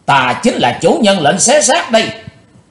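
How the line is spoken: Hateful scream. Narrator (Vietnamese): Chàng thét lên giọng quán thù

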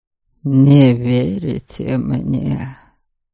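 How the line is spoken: Drawled, more statement than question. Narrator (Russian): Скорее утвердительно, чем вопросительно протянул Норберг

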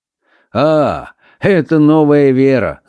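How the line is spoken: Laughing. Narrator (Russian): засмеялся Фламбо

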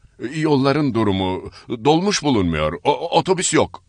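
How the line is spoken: Stammering. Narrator (Turkish): diye kekeledim

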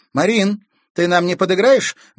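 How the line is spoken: Loud question over drums. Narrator (Russian): громко спросила Катерина, стараясь перекричать бой барабанов

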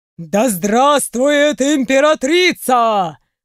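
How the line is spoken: Crowd thundering. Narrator (Russian): Прогремели ряды собравшихся

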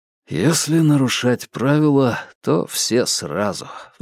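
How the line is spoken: Sighing. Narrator (Russian): вздохнул

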